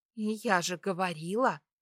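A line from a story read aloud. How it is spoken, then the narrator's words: Whisper. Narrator (Russian): прошептала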